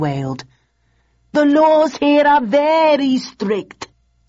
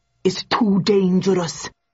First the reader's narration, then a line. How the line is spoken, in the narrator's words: muttered Jones